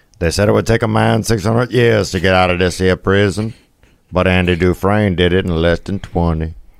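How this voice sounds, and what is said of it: Imitates another person's voice. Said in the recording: “my Morgan Freeman impersonation”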